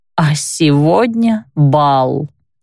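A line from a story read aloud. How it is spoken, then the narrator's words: Inner groan. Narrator (Russian): мысленно простонала я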